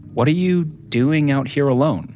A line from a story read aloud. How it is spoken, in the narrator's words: Rodney asked